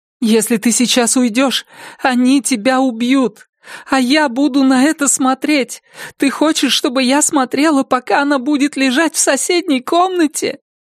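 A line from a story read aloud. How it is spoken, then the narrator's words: Words broken by sobbing. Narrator (Russian): Слова едва прорывались сквозь всхлипывание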